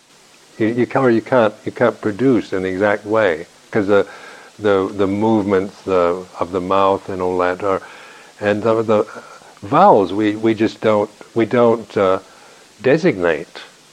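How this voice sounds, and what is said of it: West Coast American accent. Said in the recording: “my West Coast American accent”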